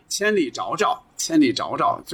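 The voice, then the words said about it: Heavy northwestern Chinese accent. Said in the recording (Chinese): “他用浓重的这个西北的口音”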